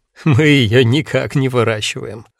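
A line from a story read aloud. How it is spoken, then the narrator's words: Laughing. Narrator (Russian): засмеялся Аким Ильич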